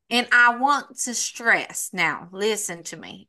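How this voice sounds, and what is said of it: Put-on Southern country accent. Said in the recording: “If I ever talk like this in my country accent ... I want to have a country accent and I always want it to be a Southern belle ... when I'm talking like this”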